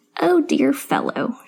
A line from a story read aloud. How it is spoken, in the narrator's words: croaked cheerily